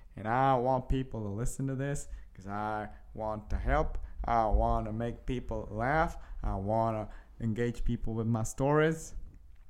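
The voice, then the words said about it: Put-on Southern US accent. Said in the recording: “I don't know why I'm doing it in a southern accent”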